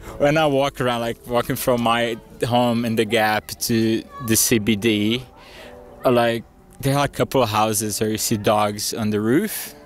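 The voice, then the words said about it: Brazilian accent, often heard as French. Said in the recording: “the only people that can tell I'm Brazilian are Queenslanders ... they normally think I'm French for my accent”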